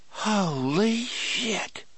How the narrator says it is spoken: Harry whispered

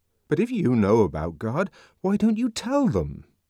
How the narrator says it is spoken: asked the savage indignantly

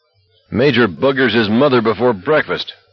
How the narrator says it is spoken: Bruce Pastor said and laughed uproariously

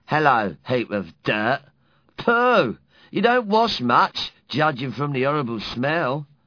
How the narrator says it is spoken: He said, very sneery

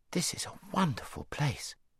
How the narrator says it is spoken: said Shasta in an awed voice

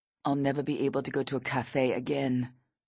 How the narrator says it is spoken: he says

